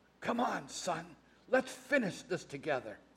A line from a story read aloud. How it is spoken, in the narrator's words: in a voice choked with emotion, he whispered